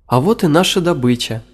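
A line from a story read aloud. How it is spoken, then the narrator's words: Joyful. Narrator (Russian): радостно сказали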